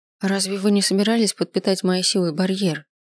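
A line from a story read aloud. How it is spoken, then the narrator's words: Mumbled. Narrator (Russian): промямлила она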